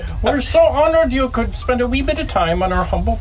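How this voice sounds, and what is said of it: Poor put-on Irish accent. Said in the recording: “He always does a shit Irish accent.”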